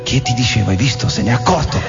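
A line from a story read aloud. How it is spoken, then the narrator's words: Soft frightened murmur. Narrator (Italian): Una ragazza sommessa mormorò col viso smorto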